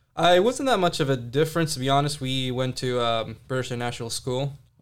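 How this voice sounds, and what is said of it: Mixed, hard-to-place mostly American accent. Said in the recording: “I have such a strange accent. Like, people don't know where it's coming from... Some people think I'm from Wyoming... there's some few words that you can pick up that doesn't sound too American”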